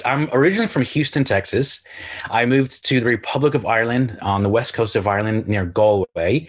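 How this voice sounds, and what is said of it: Hard-to-place mixed accent. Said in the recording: “I feel that your accent is a little confused ... I can hear everything in your accent”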